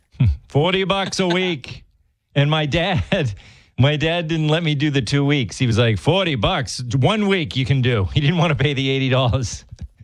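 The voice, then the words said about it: Slight Massachusetts accent. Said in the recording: “you just got a Massachusetts accent there. Dollars.”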